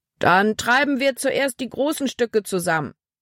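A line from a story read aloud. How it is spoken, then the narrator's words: Calling out. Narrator (German): rief Kapitän Norstad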